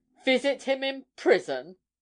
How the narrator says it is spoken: she said indignantly

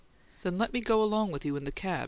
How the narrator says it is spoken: she begged

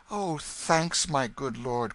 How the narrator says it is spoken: cried the boy

